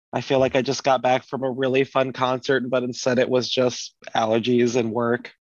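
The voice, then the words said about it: Hoarse voice, losing voice. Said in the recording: “if I sound weird. I'm losing my voice.”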